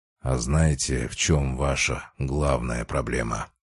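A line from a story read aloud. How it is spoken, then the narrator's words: Quiet, clear, lecturing. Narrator (Russian): Продолжал я, тихо, но внятно, словно читал лекцию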